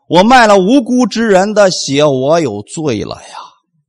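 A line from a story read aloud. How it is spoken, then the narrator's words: Plain. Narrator (Chinese): 大祭司怎么说的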